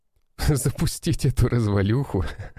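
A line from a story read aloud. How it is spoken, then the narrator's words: Laughing. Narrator (Russian): рассмеялся Кудряшов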